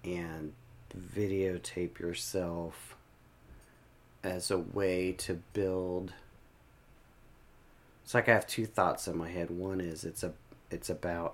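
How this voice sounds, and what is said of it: Quiet, lowered speaking voice. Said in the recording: “I got kind of quiet ... So I'm leaning in a little bit. My voice got quieter.”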